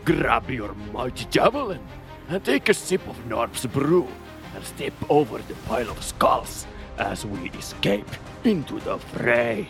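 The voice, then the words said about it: Brobnar character voice impression. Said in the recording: “my best Brobnar impression”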